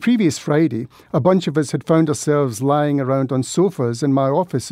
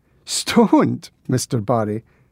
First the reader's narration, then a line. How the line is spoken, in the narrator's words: he laughed